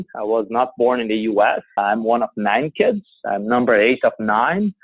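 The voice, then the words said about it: Non-native English accent. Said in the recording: “as you can all tell, I do have an accent.”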